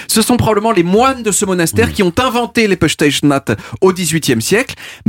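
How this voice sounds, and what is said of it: Portuguese accent speaking French. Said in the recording (French): “mon accent portugais”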